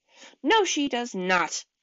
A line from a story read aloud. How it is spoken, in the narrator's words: Dex snapped